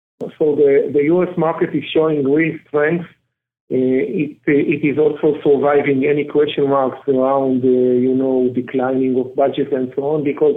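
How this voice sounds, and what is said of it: Israeli-accented English. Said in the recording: “pardon the Israeli accent”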